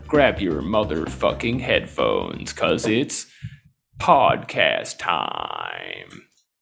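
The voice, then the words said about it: Announcer voice. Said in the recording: “what voice is this? ... It's my announcer voice.”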